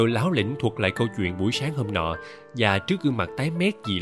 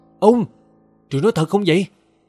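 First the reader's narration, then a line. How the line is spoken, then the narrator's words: Disappointed, frightened cry. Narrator (Vietnamese): Anh kêu lên thất vọng và sợ hãi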